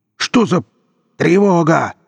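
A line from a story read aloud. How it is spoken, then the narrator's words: Yelling. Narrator (Russian): заорал он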